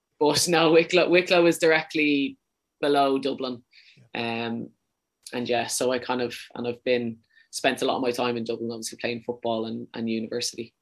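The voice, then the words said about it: Irish Dublin accent. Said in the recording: “She always says I kind of have a bit too much of a Dublin accent.”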